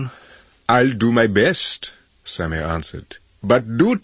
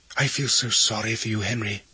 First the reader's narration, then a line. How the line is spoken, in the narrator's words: he whispered suddenly